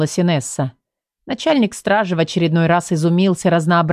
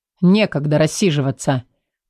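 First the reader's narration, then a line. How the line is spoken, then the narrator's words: Gruff mutter. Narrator (Russian): грубо буркнул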